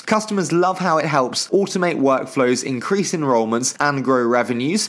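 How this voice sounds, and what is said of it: Soft, pleasant English accent. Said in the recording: “this dulcet English accent”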